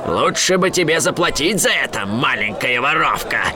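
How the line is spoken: Growled. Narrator (Russian): прорычал он

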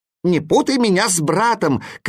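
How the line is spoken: Shouted. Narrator (Russian): кричал восклицательный

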